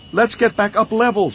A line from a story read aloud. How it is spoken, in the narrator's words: she shouted